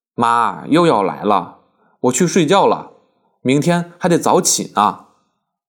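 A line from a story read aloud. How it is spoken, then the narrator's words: Laughing. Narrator (Chinese): 他笑道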